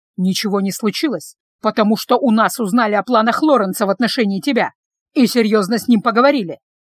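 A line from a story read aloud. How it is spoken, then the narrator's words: Father's angry reply. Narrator (Russian): зло ответил отец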